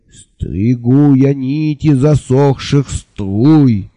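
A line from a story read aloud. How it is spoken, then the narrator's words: Exclaiming with a burr. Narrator (Russian): картаво восклицал Анды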